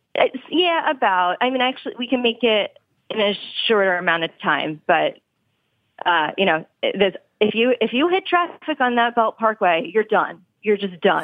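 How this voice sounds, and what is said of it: Subtle Long Island accent. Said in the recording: “you do still have the subtle traces of a Long Island accent”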